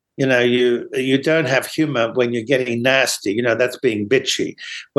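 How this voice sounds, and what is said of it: Slight mid-Atlantic accent. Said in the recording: “a slight accent ... there's a hint of an accent, but it's certainly not an American accent per se. ... That's more mid-Atlantic”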